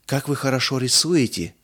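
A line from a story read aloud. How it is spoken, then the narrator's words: Breathless. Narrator (Russian): выдохнула Мирца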